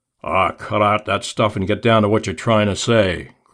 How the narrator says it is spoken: growled Blackie

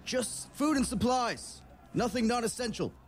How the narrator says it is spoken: the man on the horse shouts out to all these other riders

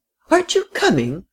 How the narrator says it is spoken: cried the frail, excitable little lady

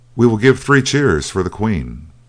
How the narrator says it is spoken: He cried

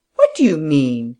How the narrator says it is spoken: he said indignantly

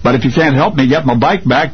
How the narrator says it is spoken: the child blurted through angry tears

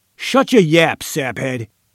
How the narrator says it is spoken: Diller roared

